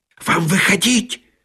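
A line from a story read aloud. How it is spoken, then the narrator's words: Hissing. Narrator (Russian): прошипел помощник режиссера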